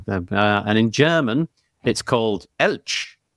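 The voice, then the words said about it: Attempted German accent. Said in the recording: “That was my German accent attempt.”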